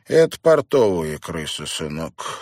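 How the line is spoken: Dry explanation. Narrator (Russian): сухо пояснил сторож

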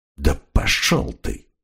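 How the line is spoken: Muttering. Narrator (Russian): пробормотал крокодил

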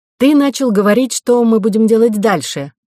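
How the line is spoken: Loud. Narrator (Russian): громко произнесла Ко

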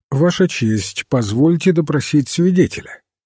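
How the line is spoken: Completely calm. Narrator (Russian): королевский адвокат Батлер совершенно спокойно сказал

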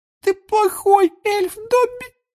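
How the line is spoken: Tearful moan. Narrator (Russian): простонала Винки, и слезы опять покатились из ее глаз

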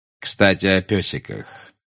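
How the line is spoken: Tender. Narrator (Russian): нежно сказал Снег

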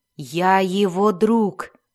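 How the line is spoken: Growled. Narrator (Russian): прорычал Дзирт

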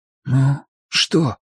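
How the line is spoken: Whispered. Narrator (Russian): прошептал Дуглас

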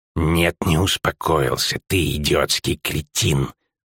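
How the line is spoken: Hissing. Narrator (Russian): зашипел он

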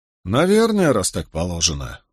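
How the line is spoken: Sighing. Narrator (Russian): вздохнул коронер

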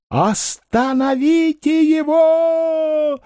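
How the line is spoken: Woman shouting. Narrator (Russian): закричала женщина в соломенной шляпе

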